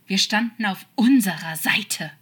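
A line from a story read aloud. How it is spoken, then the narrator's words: Desperate hiss. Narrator (German): zischte er ihm zu, ein wenig verzweifelt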